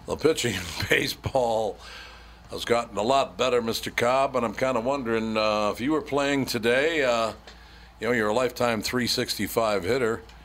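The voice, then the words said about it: Phony sports announcer voice. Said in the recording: “they all got that phony announcer voice.”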